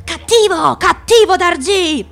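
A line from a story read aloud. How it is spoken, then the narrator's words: Shouted. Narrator (Italian): urlò Nag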